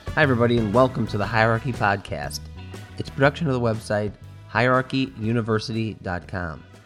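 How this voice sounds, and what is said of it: Weak voice, sick with a cold. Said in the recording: “my voice is not that strong because I'm fighting a cold.”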